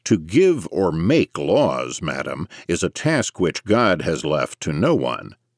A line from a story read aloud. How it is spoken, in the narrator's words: Mercier replied sharply